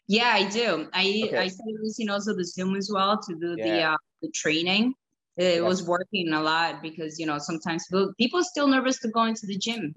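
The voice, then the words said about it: Speaks with a noticeable accent. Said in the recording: “this accent is not working”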